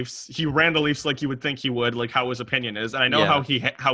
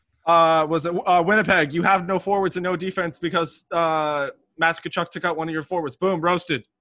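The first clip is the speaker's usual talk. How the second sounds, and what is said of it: Michael Scott character impression. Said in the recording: “my Michael Scott impression”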